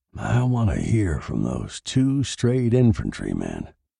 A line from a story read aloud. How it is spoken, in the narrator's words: he said quietly